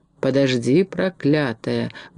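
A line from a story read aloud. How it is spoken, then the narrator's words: Captain mumbling. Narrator (Russian): бормотал капитан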